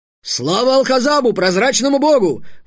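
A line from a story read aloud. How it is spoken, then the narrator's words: Sudden barked chorus. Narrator (Russian): внезапно рявкнули хором солдаты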